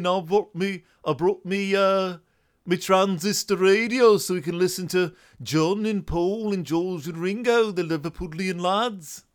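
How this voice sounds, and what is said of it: Attempted Liverpool accent, not convincing. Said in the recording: “I've been working on my Liverpool accent. ... they don't sound awful like I do”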